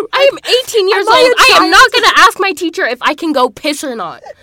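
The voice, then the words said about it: Shouting. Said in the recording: “sorry for shouting”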